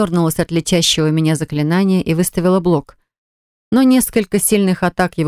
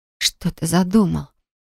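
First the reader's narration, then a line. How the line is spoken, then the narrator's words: Whisper. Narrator (Russian): прошептала я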